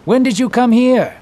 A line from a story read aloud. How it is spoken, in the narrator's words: exclaimed